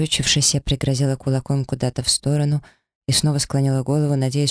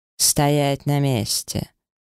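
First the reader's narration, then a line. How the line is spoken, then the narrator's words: Icy cutting-off tone. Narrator (Russian): ледяным тоном оборвал меня змей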